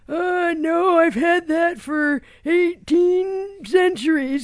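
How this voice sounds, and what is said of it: Put-on old man voice. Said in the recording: “Is this a woman or a man speaking right now? ... It's a man. I love your old man voice.”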